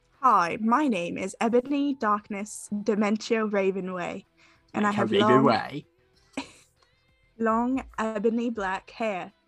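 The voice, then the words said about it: Bad fake British accent. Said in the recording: “Give us a bad British accent. ... Like someone who thinks they're British.”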